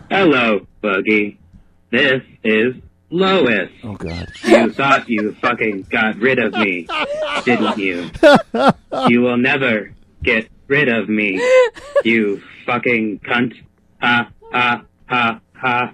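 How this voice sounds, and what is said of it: Imitates another person's voice. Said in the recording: “A Lois impersonation.”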